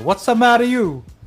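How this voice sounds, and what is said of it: Put-on Italian accent. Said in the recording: “I have to do my Italian accent.”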